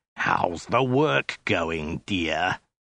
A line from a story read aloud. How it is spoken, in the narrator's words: the soldier snarled again